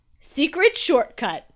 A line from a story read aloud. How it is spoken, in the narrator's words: Dad laughed